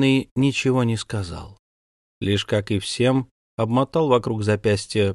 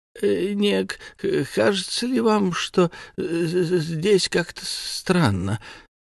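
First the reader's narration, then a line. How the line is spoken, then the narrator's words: Old man stammering. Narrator (Russian): Дед заикался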